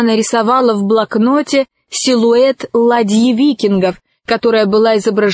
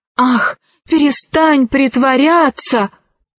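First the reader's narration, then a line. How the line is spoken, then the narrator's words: Exclaimed. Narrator (Russian): воскликнул Арсекки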